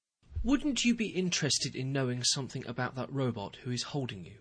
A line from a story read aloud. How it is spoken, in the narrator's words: I said